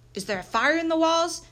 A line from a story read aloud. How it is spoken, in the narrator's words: shouted a third